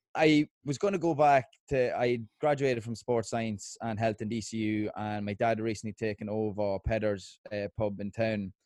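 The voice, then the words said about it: Irish accent. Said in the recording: “I'm glad to have the Irish accent.”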